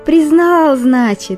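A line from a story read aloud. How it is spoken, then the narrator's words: Joyful exclamation. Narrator (Russian): радостно воскликнула хозяйка Барбоса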